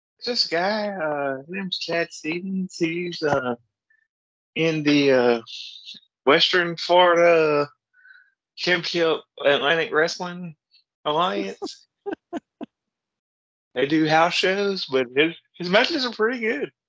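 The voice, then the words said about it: Imitates another person's voice. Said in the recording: “my Gary impersonation”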